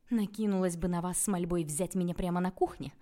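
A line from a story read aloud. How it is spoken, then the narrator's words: Laughing, hiding nerves. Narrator (Russian): Я расхохоталась, пытаясь не показывать собственного волнения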